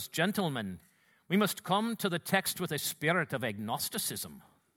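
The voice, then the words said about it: Imitated Scottish accent. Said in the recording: “Alistair's got that great, you know, Scottish accent ... he spoke in that way”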